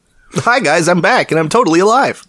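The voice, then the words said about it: Imitates another person's voice. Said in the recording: “I'd have to impersonate Shock ... Both of us do clearly different impersonations of him.”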